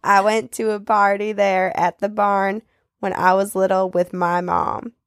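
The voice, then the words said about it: Attempted Southern US accent. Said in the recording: “do southern ... maybe a little bit more of a Forrest Gump than Southern, than a good Southern accent”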